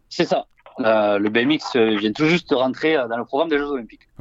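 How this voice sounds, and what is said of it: Sing-song regional French accent. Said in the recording (French): “avec un accent qui chante”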